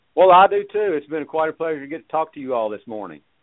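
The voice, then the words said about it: Quiet good-old-boy Southern accent. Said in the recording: “I love your southern accent. Oh, my gosh. It's just, you know, quiet enough. It's like good old boy southern accent”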